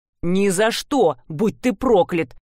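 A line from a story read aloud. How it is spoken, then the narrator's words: Growl. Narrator (Russian): прорычал Джейкон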